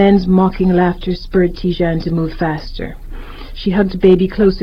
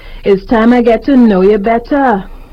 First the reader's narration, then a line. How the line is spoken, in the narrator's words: hollered